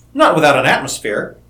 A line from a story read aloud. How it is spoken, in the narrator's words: he laughed